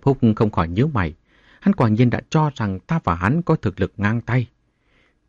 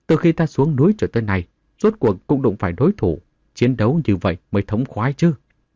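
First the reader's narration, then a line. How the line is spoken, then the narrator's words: Excited laughing speech. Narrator (Vietnamese): Tê Xuyên đánh giết hứng khởi cười to mà nói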